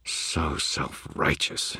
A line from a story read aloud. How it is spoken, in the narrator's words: snarled